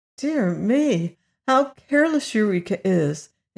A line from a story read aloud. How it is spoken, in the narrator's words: exclaimed the girl, much distressed